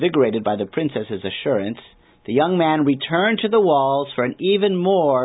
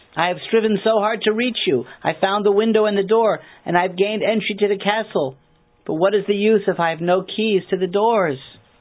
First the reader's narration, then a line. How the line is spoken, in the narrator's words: the young man called out in anguish